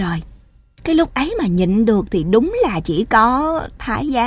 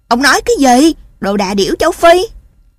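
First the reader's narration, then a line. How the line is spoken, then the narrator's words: Angry shout. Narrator (Vietnamese): hét vào mặt thằng bạn cùng lớp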